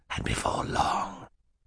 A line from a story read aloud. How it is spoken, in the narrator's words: Stefano muttered to the children